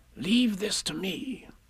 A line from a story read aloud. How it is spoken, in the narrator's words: Rabbit whispered